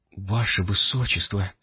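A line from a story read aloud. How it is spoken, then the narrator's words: Whisper. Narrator (Russian): прошептала Адорана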